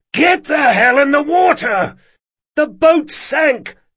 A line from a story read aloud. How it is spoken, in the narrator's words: Locke cried